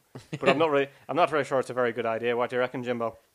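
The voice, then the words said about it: Poor put-on Northern Irish accent. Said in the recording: “present the rest of this week's podcast with an Irish accent ... It blends into the Louis Walsh one that you do as well, which is slightly higher pitched ... this accent I'm doing is probably a bit more of a Northern Irish accent ... that appalling accent”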